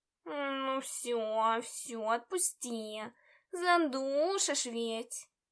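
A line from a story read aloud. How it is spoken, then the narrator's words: Embarrassed grumble. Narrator (Russian): Смущенно проворчал он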